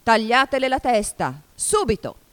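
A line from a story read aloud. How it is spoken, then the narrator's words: Furious shout. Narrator (Italian): La regina diventò di porpora per la rabbia … gridò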